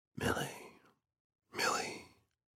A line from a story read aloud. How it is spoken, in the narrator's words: he whispered